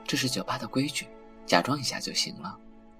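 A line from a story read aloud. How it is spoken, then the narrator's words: Soft whisper in ear. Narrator (Chinese): 王凯笑了笑，把嘴巴贴在他的耳边，轻声道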